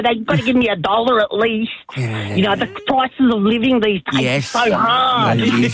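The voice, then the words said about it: Impression of Dave Hughes. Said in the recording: “Dave Hughes here... impersonate me”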